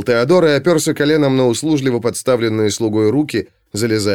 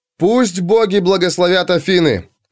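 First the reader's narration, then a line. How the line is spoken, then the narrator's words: Shouted. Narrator (Russian): крикнул Алексей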